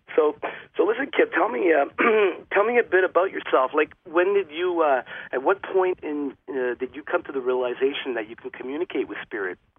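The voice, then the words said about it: Hoarse, worn voice after cough. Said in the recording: “my voice is a little shot today. I'm just getting over a cough”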